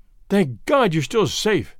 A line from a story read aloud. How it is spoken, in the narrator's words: I gasped